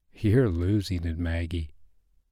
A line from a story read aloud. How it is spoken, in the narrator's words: you mumbled to yourself